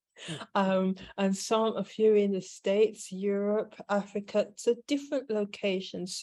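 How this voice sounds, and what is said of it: British accent. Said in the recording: “some in the UK where I'm based. You may or may not have noticed by my accent.”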